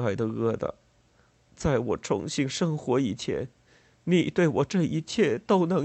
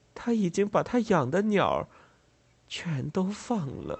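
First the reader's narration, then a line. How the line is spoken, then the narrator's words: Tearful sobbing. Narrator (Chinese): 可怜的、疯疯癫癫的弗莱德小姐忽然哭哭啼啼的说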